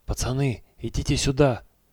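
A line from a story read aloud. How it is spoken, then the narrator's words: Whispered call. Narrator (Russian): шепотом позвал Федя Борисов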